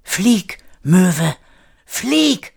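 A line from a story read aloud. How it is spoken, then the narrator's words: Called out. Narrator (German): rief Kire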